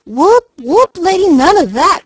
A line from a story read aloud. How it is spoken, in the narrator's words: cried Mickey aghast